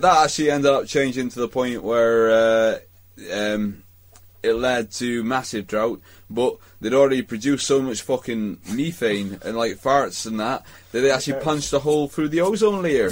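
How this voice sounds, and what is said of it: Put-on West Country accent. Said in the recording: “Change accent to West Country.”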